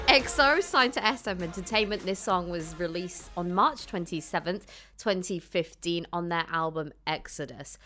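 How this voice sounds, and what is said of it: Proper British accent while reading. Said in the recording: “The British in me. When I'm like reading like this, my accent gets really like proper.”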